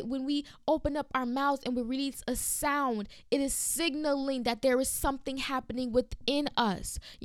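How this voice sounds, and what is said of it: Excited preaching with shifted accent. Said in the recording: “I'm getting excited because you already hear a switch in my accent.”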